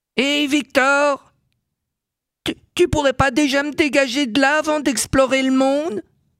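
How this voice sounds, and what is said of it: Voice with strong foreign accent. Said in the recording (French): “une voix avec un fort accent étranger”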